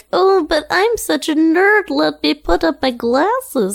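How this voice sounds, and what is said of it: Nerdy character voice. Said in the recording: “a really good nerd voice.”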